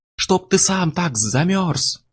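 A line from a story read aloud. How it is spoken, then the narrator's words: Yelling. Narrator (Russian): орал я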